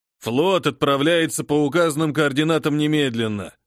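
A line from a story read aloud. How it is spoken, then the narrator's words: Muffled growl. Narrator (Russian): глухо прорычал флотоводец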